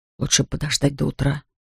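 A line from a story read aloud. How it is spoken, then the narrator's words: Whisper. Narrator (Russian): прошептал он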